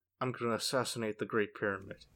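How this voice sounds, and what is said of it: Attempted Nicolas Cage impression. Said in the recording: “Makes me wish I could do a Nicolas Cage impression.”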